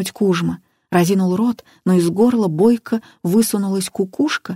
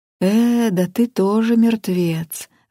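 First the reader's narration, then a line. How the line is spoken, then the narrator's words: Disappointed sigh. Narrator (Russian): разочарованно вздохнул Дьяченко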